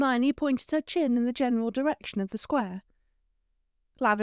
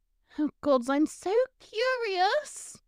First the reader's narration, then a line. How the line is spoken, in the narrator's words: Lavender squealed